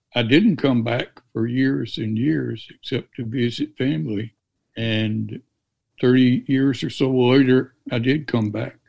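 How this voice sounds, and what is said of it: Mississippi Southern American accent. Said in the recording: “I'm from Mississippi ... I never obviously lost my accent”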